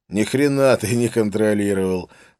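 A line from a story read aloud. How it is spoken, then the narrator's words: Laughing. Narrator (Russian): засмеялся он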